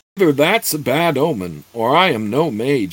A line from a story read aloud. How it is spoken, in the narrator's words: he exclaimed